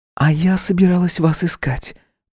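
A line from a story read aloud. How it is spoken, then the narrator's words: Whisper. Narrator (Russian): прошептала она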